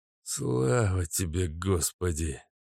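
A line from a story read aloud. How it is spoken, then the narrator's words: Old man's relieved exhale. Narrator (Russian): выдохнул старик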